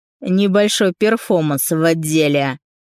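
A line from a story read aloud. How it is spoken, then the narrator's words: Pleased snort. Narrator (Russian): Довольно хмыкнул Артур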